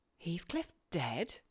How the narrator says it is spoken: I exclaimed, astonished

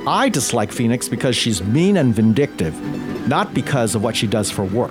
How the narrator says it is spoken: said

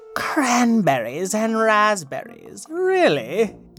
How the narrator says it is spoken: the snooty cat purred

